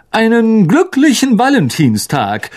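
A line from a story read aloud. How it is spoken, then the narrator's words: Called out. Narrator (German): rief Lockhart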